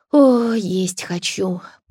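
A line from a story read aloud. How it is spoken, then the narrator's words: Moan. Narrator (Russian): простонала Марта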